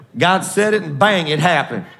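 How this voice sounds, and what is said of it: Put-on hillbilly accent. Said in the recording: “Y'all like my hillbilly accent? You know I'm half hillbilly.”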